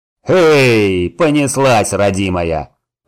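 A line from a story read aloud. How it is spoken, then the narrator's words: Deep bass voice. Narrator (Russian): пробасил возница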